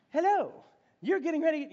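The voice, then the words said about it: Put-on English accent, GPS voice. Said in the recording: “you get it in a really cool English accent. ... I'm not gonna try to be Siri”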